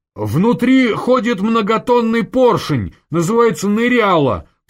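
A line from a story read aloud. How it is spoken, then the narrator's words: Shouting. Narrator (Russian): крикнул Васильев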